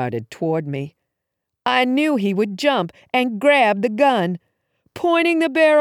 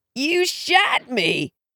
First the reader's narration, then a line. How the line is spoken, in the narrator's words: he croaked